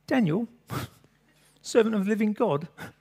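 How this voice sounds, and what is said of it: Bad put-on English accent, anguished. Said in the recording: “in an anguished voice ... I so want to do this with an English accent ... that terrible accent”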